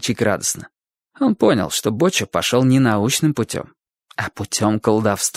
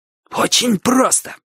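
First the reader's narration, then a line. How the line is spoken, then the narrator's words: Excited, wheezy. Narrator (Russian): сказал Боча, возбуждаясь от собственной догадки, и от этого голос его еще сильнее засипел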